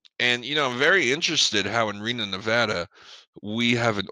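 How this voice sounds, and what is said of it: Usual voice. Nothing is said of it.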